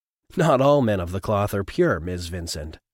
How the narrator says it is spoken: O'Shea laughed

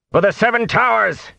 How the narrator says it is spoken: he shouted

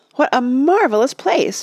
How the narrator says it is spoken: Mona cried

